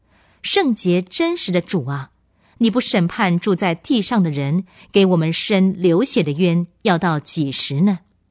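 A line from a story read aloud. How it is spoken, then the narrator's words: Loud crying out of souls. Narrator (Chinese): 被杀的人的灵魂，他们大声喊叫说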